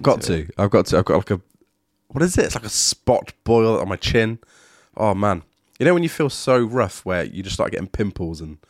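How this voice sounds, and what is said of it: Rough, unwell-sounding voice. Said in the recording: “I don't know if my voice is as bad as it is in my head ... you sound more attractive ... I'm not going to always speak like this ... I'm feeling pretty run down”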